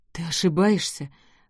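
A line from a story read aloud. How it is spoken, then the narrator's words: Mumbling. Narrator (Russian): промямлил Энтони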